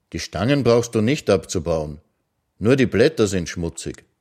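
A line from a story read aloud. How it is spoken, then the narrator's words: Calm. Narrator (German): sagte er ruhig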